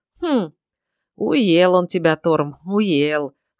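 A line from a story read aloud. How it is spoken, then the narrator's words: Smirking grunt. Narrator (Russian): хмыкнул воин, слегка изогнув губы в усмешке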